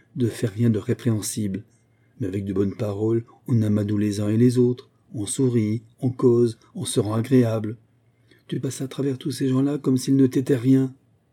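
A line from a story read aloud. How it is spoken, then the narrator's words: Calmer tone. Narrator (French): reprit-il d'un ton plus calme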